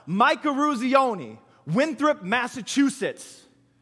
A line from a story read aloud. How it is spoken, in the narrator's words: one player yells out